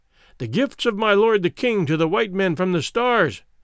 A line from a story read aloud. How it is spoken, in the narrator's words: exclaimed a herald